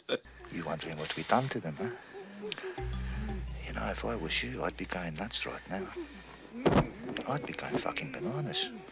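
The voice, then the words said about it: South African accent. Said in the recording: “he can't pick up a South African accent from it”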